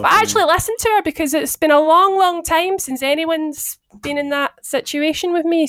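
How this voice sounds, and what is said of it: Nasal, congested voice. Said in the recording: “my voice is a little bit right now. I'm very nasally sounding”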